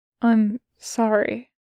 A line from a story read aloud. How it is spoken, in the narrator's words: he says, his voice quiet